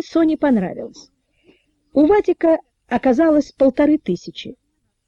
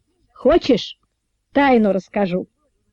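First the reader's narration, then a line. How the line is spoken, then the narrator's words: Indifferent question. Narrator (Russian): равнодушным голосом спросил Вадик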